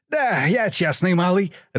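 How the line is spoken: Laughing. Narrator (Russian): рассмеялся Егор

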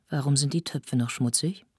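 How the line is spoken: Gentle but firm question. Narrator (German): fragte sie sanft, aber bestimmt

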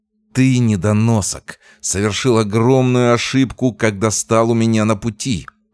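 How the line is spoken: Menacing hiss. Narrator (Russian): прошипел Меркулов

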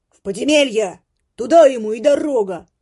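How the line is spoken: Another voice shouting. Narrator (Russian): крикнул другой голос

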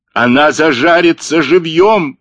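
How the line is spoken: Howling. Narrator (Russian): взвыл Блек

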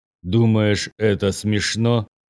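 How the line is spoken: Grumbling. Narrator (Russian): проворчал патриарх

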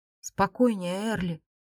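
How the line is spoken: Familiar whisper. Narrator (Russian): послышался знакомый шепот

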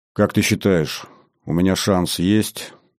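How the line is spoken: Quiet question. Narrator (Russian): тихо спросил Платон

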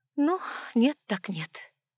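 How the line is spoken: Sigh. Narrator (Russian): вздохнула

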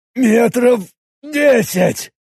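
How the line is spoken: Hoarse. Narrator (Russian): прохрипел Роберт, пропустив первую пулю

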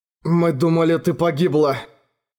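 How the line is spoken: Hoarse, weak, slurred. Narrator (Russian): хриплым голосом вымолвил, еле ворочая языком

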